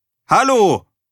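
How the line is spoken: Repeated call. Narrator (German): rief Erik ein drittes Mal

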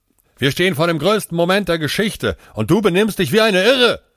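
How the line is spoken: Shouted. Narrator (German): schrie Aman

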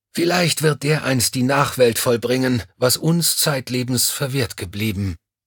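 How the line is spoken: Sighing, melodramatic. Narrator (German): seufzte er pathetisch

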